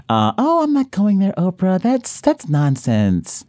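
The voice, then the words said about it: Imitates another person's voice. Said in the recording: “my Michael Jackson impression”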